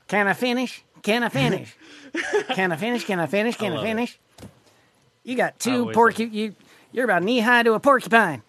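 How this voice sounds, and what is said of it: Ross Perot impression. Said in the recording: “He said you should hear his Ross Perot”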